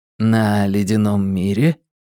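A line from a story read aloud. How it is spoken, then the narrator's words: Gentle clarifying question. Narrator (Russian): мягко уточнил Абеттик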